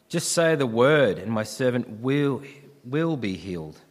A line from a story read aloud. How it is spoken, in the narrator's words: said the centurion